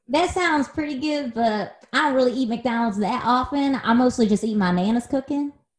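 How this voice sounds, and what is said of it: Country woman voice. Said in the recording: “you sound like a country woman”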